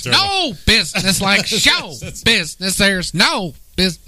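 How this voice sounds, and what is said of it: Imitates another person's voice. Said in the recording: “That's Ethel Merman.”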